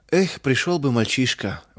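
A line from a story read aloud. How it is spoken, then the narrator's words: Sighing. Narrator (Russian): вздохнул мельник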